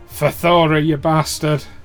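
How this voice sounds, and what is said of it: Put-on Scottish accent. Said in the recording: “That was the wrong accent ... she went Scottish there”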